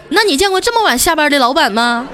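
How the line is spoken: Angry. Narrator (Chinese): 调调也怒了，说

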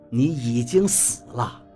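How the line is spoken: Cold. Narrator (Chinese): 赵一二冷冷地说道

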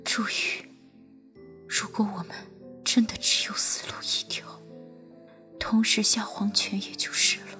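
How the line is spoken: Soft. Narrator (Chinese): 君玉轻声道

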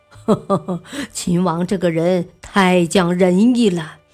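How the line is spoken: Laughing. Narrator (Chinese): 房玄龄笑道

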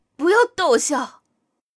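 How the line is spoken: Pained, suppressing laughter. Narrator (Chinese): 陈飞荣想笑，嘴一抽就直叫痛，忙忍住不笑，说道

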